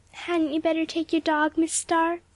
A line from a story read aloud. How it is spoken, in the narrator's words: she asked sweetly